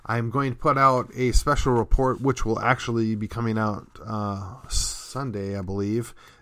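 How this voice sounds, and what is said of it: Strained, failing voice. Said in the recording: “you probably could tell my voice is giving out.”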